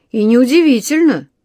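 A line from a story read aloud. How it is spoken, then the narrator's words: Snorting. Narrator (Russian): хмыкнул мистер Браун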